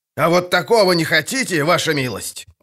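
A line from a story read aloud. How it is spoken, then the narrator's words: Shouted. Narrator (Russian): крикнул капитан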